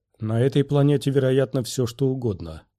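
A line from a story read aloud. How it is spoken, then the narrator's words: Grim. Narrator (Russian): мрачно проговорил Квай-Гон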